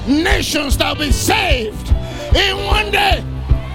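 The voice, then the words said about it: Shouting preacher. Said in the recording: “why am I shouting now? I'm not shouting for you 300 people. I'm shouting”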